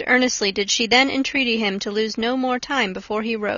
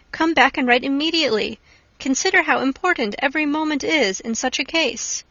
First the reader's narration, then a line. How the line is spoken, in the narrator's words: she cried